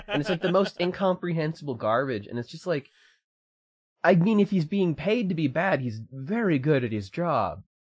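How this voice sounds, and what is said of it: Slight British accent. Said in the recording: “That's a primo British accent, though, that you've developed from all this ... I've also had a bit of a British accent that I've developed”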